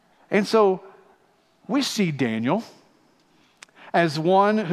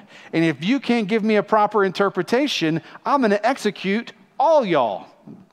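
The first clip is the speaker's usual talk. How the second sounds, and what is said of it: Put-on Southern accent. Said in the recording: “he's a southern accent, right?”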